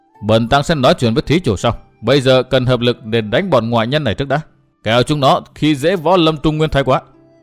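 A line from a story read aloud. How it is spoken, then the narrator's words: Cold reply. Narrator (Vietnamese): Thần nhãn đại sư đáp lễ Phi Thiên Kiếm Khách Thượng Quan Xương bằng một giọng lạnh lùng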